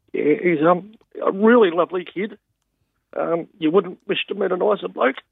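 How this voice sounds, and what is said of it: Emotional voice. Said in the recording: “I do get a bit emotional.”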